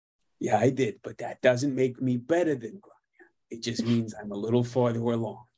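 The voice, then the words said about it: Poor imitation of another person's voice. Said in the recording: “you do a shitty Bob Ross”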